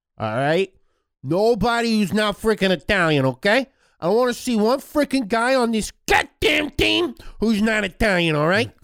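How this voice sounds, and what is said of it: Mussolini impression with Brooklyn accent. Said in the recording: “Mussolini is from Brooklyn. ... my Mussolini impression.”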